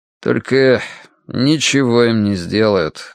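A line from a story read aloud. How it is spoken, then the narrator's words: Sad. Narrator (Russian): грустно добавил он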